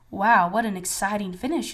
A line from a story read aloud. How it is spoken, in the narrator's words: coach exclaimed